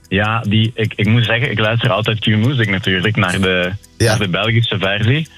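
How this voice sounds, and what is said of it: Put-on Belgian Dutch accent. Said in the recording (Dutch): “Ik hoor nu aan je accent dat jij Belgisch bent. ... dat doe je alsof misschien”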